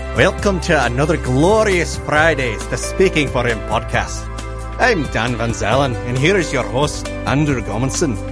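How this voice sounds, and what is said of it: Irish lilt. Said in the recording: “that Irish lilt in ... voice”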